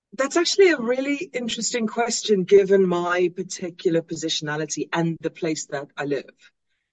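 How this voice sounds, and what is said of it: Acquired UK-sounding accent. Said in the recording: “I lived in the UK for about 15 years, which is why I have this fake accent.”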